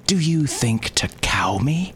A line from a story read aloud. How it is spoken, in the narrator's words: He gasped